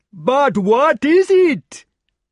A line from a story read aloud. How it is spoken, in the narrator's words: they cried in despair